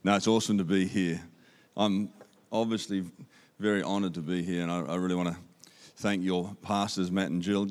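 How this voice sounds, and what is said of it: Australian accent. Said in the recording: “You can understand my Aussie accent. ... Matt reckons I've got more an Aussie accent than him”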